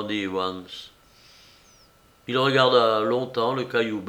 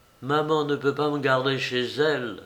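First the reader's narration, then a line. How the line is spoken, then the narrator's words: Plain. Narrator (French): répondit Evans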